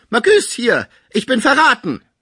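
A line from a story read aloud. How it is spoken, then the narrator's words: Sick man calling out. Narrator (German): der Kranke rief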